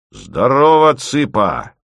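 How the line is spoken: Loud bark. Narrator (Russian): гаркнул Подмухин

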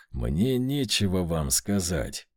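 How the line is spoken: Through gritted teeth, barely restrained. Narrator (Russian): процедил я сквозь зубы, едва сдерживаясь

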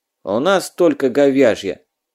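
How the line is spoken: Rude interruption. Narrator (Russian): грубо оборвал Раджи Вазадов

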